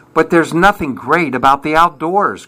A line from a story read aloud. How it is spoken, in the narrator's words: cried Bob